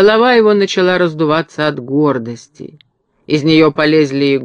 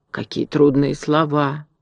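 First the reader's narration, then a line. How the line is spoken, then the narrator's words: Reverent whisper, crow. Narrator (Russian): с великим уважением прошептала ворона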